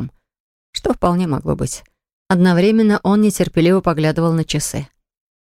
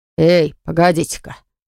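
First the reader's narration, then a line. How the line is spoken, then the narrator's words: Embarrassed barking shout. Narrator (Russian): рявкнул Малкольм, краснея по уши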